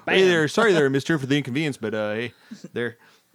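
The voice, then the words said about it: Weak put-on Canadian accent. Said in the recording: “Is that even a good Canadian accent? ... Not really, but it's okay.”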